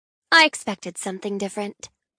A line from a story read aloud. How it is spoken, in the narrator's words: she adds dryly